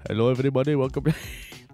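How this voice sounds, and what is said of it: Put-on call-centre style accent. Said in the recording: “Next time I'll change up my accent ... if you wanted to hear that accent, I'd just call Telstra support”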